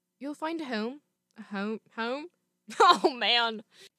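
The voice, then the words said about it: Put-on New Zealand accent. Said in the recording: “we're gonna go into our Kiwi accent.”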